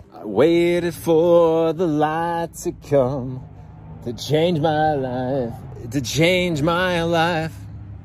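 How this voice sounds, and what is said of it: Sloppy sung delivery. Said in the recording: “you can hear the sloppiness in my voice.”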